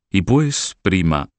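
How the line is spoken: Plain. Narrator (Spanish): dijo Roberto

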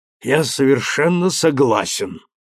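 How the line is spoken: Hoarse rasp. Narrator (Russian): прохрипел Дросте

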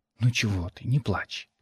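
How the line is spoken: Muffled whisper. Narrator (Russian): прошептал в макушку

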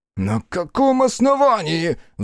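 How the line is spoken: Shrill squeal. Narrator (Russian): взвизгнул Френкель

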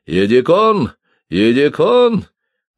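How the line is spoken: Shouting. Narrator (Russian): крикнул

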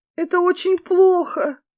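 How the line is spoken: Moaning. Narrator (Russian): простонала Фэй

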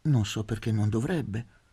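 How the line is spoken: Gentle retort. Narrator (Italian): ribatté dolcemente

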